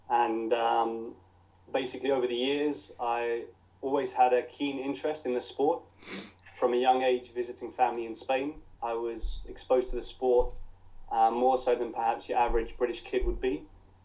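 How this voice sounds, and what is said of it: English accent. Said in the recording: “as you can tell from the accent, I was born and brought up in England, in Crawley in West Sussex.”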